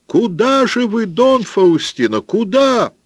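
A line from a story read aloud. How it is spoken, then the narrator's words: Piercing shout. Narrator (Russian): кто-то закричал пронзительным голосом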